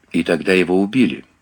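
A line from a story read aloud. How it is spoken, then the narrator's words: Plain. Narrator (Russian): сказал Мэтлок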